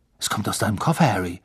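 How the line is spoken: Plain. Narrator (German): sagte Ron

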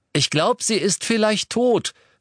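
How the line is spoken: Cheerful call. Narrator (German): rief er vergnügt

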